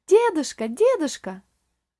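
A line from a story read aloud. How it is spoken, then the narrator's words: Joyful exclamation. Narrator (Russian): радостно воскликнула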